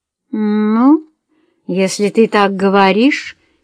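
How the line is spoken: Sour drawl. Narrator (Russian): кисло протянула она

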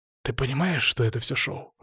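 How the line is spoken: Whisper. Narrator (Russian): шепнул

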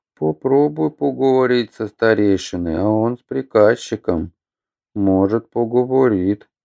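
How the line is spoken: Uncertain drawl. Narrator (Russian): неуверенно протянул Емеля

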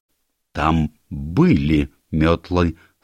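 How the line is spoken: Plain. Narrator (Russian): сказала миссис Оливер

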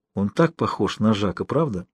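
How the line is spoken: Quiet. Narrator (Russian): он тихо сказал ей

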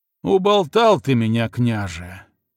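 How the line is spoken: Heavy sigh. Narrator (Russian): тяжко вздохнул Угрюм

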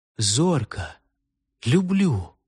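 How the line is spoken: Very soft whisper. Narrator (Russian): тихо-тихо прошептал

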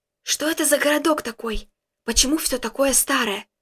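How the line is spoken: Whispered. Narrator (Russian): прошептал

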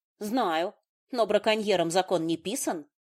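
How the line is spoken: Snorted sullenly. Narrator (Russian): фыркнула угрюмо

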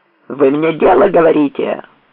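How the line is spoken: Barking behind door. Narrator (Russian): гаркнул Селезнев за дверью

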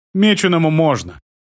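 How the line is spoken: Sighing girl. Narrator (Russian): вздохнула девочка

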